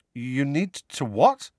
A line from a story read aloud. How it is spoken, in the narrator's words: said Harry nervously